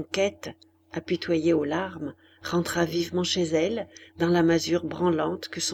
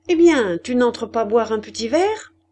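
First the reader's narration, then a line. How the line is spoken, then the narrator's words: Cheerful question. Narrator (French): demanda gaiement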